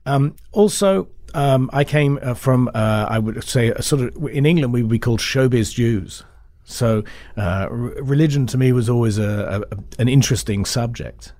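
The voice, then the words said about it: British English accent. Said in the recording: “if you grow up in Britain ... when they hear my accent”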